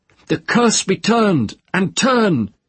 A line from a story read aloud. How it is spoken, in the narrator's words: She sat up and cried out in her own language